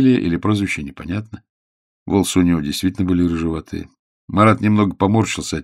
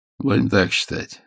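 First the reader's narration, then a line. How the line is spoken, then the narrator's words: Calm young man. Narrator (Russian): спокойно ответил парень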